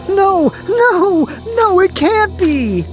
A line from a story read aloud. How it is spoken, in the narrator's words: Then Jimmy screamed out